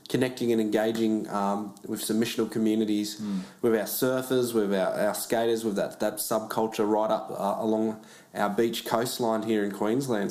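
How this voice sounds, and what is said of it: Australian accent. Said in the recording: “I love your accent... I think you love Lachlan. I'm more of a New Zealand accent... us Americans can't tell your accents apart”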